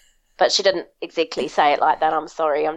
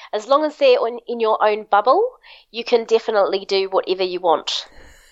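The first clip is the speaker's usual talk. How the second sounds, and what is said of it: Put-on New Zealand accent. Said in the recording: “I'm just running the New Zealand accent.”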